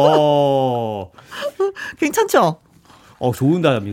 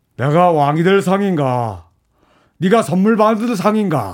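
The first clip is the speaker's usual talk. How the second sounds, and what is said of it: Imitates a film character's line. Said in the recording (Korean): “성대모사 ... 관상에”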